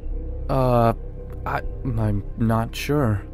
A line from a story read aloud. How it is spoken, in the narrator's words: I stammered, trying to regain my composure